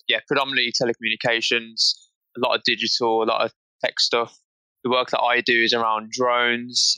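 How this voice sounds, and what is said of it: British accent. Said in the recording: “as you can probably tell from ... accent, he is in the UK”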